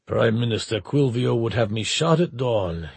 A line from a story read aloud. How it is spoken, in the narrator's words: he rumbled